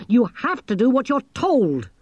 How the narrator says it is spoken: snapped Angelo

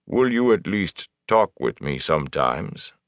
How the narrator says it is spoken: Loyal sighed, a bass rumble

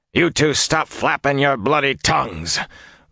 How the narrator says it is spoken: Uno snapped

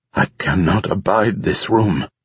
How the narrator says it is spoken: Drem said in a creaky voice

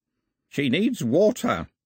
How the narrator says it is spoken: croaked the old man

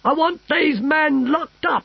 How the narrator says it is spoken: shouted the Emperor

